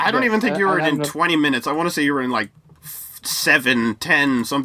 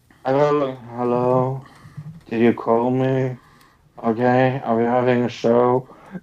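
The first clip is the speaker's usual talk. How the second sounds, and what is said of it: Groggy, dead-tired zombie-like voice. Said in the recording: “I was so dead tired ... I sound like a zombie. I sound like...”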